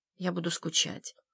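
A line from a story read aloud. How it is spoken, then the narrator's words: Quiet. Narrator (Russian): тихо проговорил он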